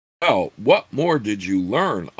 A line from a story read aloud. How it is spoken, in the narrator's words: Abni growled